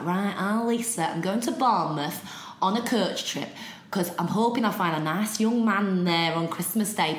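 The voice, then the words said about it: Put-on Derby accent. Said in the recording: “She's from Derby, so apologies for anyone from Derby because I'm about to do an accent”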